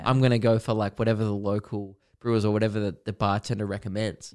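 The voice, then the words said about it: Australian accent. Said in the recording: “he turned my accent and went ... you must be Australian”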